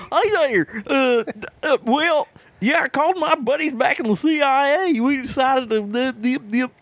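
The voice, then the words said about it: Mild put-on Southern American accent. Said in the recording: “I can do a mild southern accent.”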